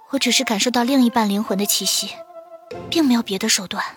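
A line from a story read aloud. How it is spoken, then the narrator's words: Soft voice. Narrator (Chinese): 穆清雪……轻声道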